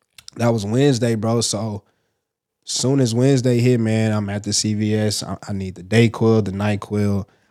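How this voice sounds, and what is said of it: Congested, stuffy-nosed voice. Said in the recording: “You probably still can kind of hear it in my voice. I'm a little congested.”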